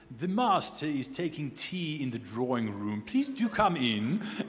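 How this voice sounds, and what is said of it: Put-on British butler accent. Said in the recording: “some other butler, you know, inevitably with a British accent”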